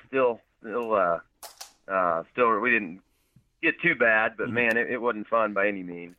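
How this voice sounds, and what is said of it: Slightly hoarse voice. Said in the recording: “my voice is a little hoarse,”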